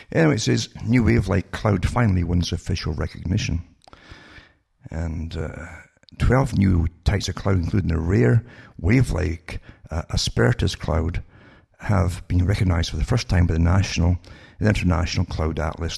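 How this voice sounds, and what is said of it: Crackly, dry voice. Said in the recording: “sorry for my voice, is a bit crackly here, but the air's so dry”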